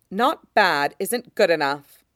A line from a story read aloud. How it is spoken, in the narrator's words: his mother said sharply